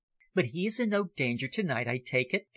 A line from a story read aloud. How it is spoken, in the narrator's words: came back the answer in a whisper as low as his own